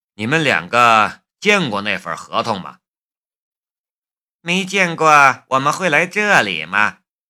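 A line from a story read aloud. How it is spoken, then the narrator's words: Calm, indifferent. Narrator (Chinese): 淡淡的说道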